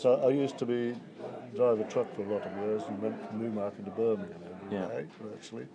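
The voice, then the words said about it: Mixed, hard-to-place English regional accent. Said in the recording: “trying to work out from your accent where you're from ... it's a mixture”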